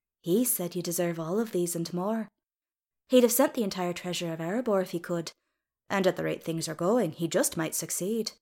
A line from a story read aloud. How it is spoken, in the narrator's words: Bulfer said kindly